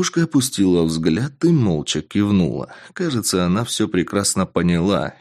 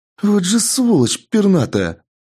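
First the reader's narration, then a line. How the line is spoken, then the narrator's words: Exclamation. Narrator (Russian): воскликнула Тесс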